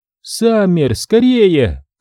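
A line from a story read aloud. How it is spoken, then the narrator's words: Urgent shout. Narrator (Russian): кричала Дженни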